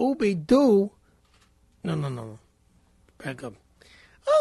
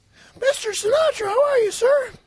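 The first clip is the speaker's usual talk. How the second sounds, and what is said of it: High-pitched Mickey Mouse-like voice. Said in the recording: “talk like in a high voice because you're younger ... talk like a little Mickey Mouse”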